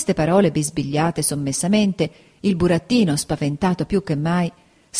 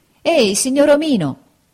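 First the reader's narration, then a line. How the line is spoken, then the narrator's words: Shouted. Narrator (Italian): gridò allora Pinocchio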